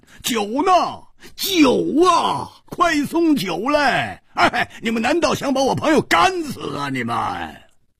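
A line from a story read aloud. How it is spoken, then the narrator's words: Loud shouting. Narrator (Chinese): 他拍着桌子大声喊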